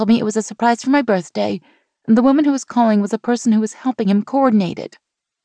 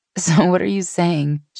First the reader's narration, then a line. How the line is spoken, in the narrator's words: She asked, laughing